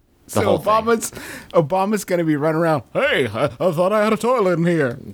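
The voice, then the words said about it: Imitates another person's voice. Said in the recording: “great impression”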